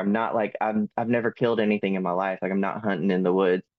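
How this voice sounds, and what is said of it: Southern American accent. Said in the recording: “I am Southern. I didn't realize I had a Southern accent”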